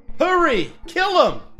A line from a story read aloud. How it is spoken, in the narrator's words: The woman's husband shouted